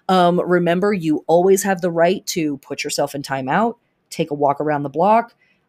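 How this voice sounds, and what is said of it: Voice starting to give out. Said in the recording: “My voice is definitely starting to go”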